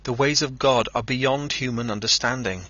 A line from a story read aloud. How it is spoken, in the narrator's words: he cried